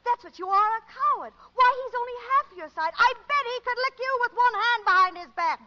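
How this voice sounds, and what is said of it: Raised, shouting voice. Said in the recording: “raising your voice? ... Certainly I'm raising my voice. ... She starts at that pitch.”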